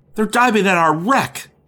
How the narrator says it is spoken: He exclaimed

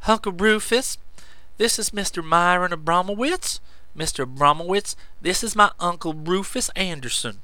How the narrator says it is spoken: Hattie in a worried tone said

